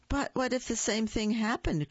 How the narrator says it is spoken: cried the old woman

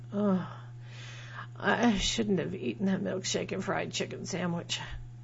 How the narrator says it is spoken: I groan

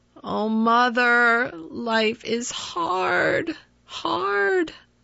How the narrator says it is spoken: He groaned aloud

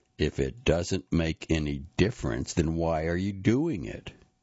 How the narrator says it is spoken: said, his voice sounded almost menacing

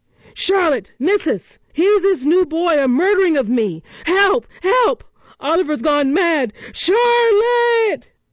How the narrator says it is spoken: shouts

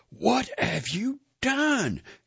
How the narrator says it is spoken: she shouted

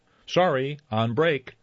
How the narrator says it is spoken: Scatty shouted

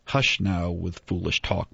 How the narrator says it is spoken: Mom said

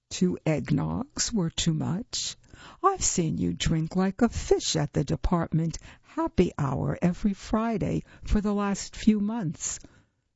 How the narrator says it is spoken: Vogelhers said

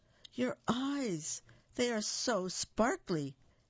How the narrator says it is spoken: exclaimed the prince

